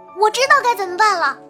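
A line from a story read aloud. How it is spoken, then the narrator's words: Sudden excited exclamation. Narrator (Chinese): 小智多星玛丽突然叫了起来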